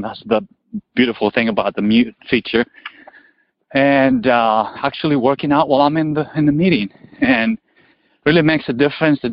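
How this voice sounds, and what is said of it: Breathless, out-of-breath speech. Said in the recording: “I'm out of breath”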